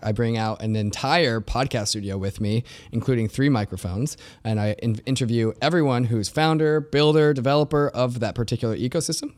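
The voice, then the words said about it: Slightly raspy voice. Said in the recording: “I put my voice on the line ... a little bit raspy of a voice”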